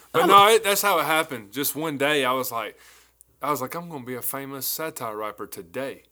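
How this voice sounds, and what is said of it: Southern country accent. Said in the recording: “Just as country as I am, the accent is going to be all over the world”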